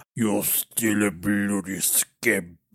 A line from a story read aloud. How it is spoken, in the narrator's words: groaned as he closed his eyes forever